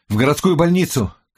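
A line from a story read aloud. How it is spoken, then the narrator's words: Shout. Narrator (Russian): крикнул я водителю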